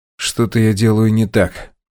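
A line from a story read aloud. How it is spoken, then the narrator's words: Now steady voice. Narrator (Russian): сообщил уже ровным голосом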